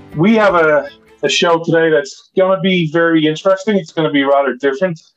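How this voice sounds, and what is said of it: Irish accent. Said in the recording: “This Irish man ... you come for the accent”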